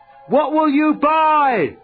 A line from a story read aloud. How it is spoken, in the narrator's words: someone yelled out